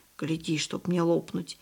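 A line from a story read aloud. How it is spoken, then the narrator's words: Excited whisper. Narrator (Russian): возбужденно прошептал Барток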